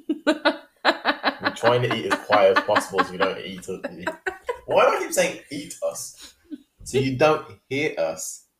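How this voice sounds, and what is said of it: Birmingham accent. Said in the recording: “It's the accent. ... Yeah, from Birmingham.”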